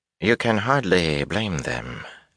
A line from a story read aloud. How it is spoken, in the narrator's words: Aginan drawled